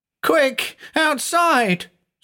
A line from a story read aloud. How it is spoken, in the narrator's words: screamed the teenager